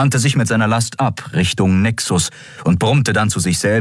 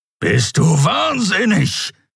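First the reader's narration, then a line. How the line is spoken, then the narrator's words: Growled. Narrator (German): knurrte der Skria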